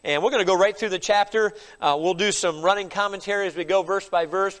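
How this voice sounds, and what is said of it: Stuffy, congested voice from a cold. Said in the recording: “I'm a little stuffy, but I apologize for my voice ... I just got a little bit of a cold here today”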